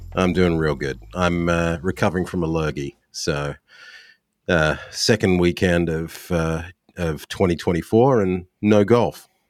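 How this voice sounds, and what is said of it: Deep radio-like voice. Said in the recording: “I definitely have my radio voice on today.”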